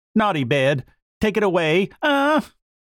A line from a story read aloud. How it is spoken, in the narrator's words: the poor little boy, who was really tired out, began to scream and cry lustily